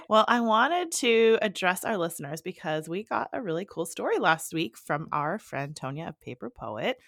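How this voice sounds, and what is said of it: Congested, husky sniffly voice. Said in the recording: “my kid gave me a bit of the sniffles. So if you're hearing my sexy phone voice today”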